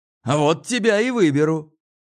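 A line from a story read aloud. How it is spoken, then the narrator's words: Shouted reply. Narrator (Russian): крикнул в ответ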